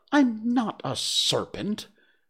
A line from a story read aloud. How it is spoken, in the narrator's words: said Alice indignantly